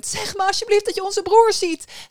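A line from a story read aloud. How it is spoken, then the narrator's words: Sobbing young woman calling. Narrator (Dutch): riep de jonge vrouw snikkend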